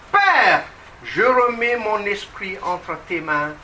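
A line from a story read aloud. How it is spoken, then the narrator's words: Loud cry. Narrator (French): Jésus s'écria d'une voix forte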